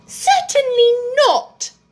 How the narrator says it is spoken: said Alice indignantly

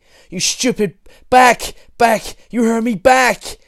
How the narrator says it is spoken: he shouted like a lion tamer

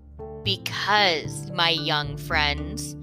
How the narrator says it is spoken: he muttered sourly

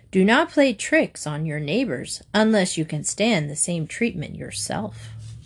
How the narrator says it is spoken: the stork said calmly

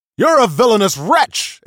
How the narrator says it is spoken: exclaimed a disciple

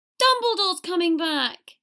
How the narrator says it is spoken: several people yelled joyfully

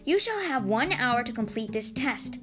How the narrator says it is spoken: she barked

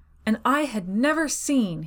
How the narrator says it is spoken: he shouted

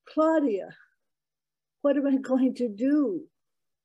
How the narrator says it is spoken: I blurted out

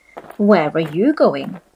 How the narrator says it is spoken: he asked

